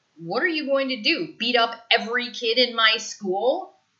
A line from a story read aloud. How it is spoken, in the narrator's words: He snaps